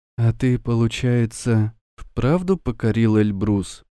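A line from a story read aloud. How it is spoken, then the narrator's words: Quiet question. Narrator (Russian): тихо спросила она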